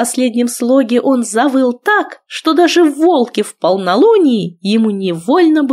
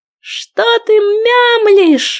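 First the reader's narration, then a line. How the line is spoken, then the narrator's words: Roaring male. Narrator (Russian): взревел он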